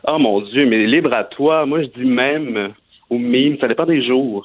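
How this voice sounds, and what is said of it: Regional French accent from the Baie. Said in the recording (French): “ton accent de la baie ... mon accent ne me quittera jamais”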